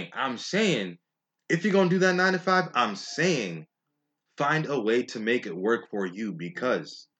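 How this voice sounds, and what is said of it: Yelling, heated loud voice. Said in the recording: “I'm sorry if I'm yelling, but I'm hot, I'm heated right now”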